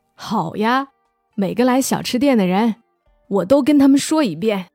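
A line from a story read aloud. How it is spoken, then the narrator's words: Smiling old woman. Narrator (Chinese): 外婆笑着说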